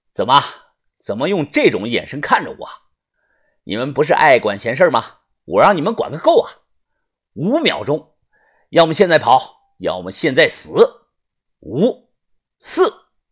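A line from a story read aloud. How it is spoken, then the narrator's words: Cold voice. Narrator (Chinese): 王元杰冷声的说道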